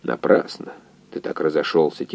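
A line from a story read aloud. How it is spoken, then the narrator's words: Quiet. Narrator (Russian): тихо сказал координатор инженеру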